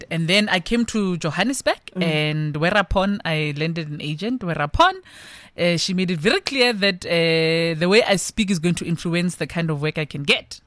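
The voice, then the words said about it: Suburban South African school accent. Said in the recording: “this accent. It was as far as I could get, as close as I could get to sounding like I went to those suburb schools”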